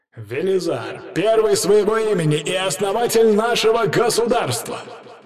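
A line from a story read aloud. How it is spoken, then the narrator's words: Crowd shouting. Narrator (Russian): закричали люди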